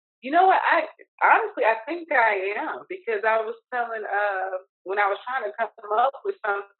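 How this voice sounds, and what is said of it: Southern US country accent. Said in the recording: “I talk very country. ... everyone tells me all the time that I have that Southern draw”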